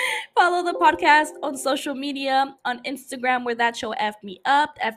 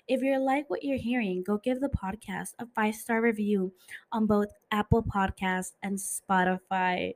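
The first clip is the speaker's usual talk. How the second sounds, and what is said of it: Put-on sexy, seductive voice. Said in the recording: “putting on my sexy voice.”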